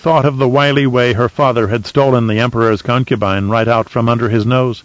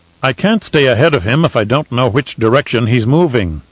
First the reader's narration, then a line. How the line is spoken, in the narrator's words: Dominic replied